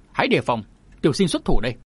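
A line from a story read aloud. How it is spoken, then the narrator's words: Young man shouting. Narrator (Vietnamese): chàng quát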